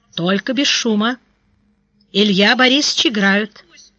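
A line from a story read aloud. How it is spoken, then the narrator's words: Quiet but stern. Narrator (Russian): он тихо, но строго сказал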